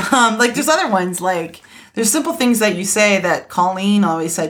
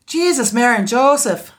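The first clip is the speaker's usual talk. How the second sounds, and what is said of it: Deliberately bad put-on Irish accent. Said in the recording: “That's really, really bad Irish accent.”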